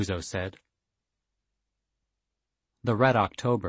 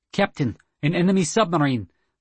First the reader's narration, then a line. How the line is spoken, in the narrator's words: the Mishman said urgently